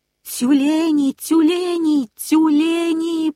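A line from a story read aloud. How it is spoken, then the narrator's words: Piercing shout. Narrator (Russian): пронзительно закричала Акка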